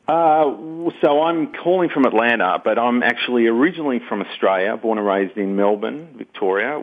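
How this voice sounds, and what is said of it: Australian accent. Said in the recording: “I hear a wonderful accent... What's the accent”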